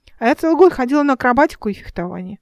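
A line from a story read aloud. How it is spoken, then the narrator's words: Convincing declaration. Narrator (Russian): убедительным тоном заявил Эл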